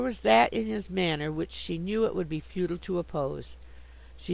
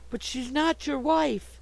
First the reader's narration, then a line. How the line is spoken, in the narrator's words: cried Sue distractedly